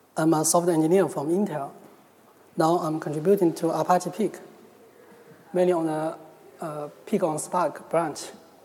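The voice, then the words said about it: Chinese-accented English. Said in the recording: “my Chinese accent.”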